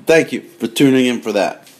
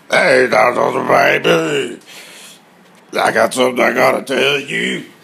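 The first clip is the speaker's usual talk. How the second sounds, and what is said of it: Imitates another person's voice. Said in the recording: “That was my worst impression ever.”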